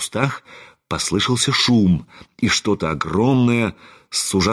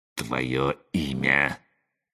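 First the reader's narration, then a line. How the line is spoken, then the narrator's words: Ominous hiss. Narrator (Russian): зловеще прошипел он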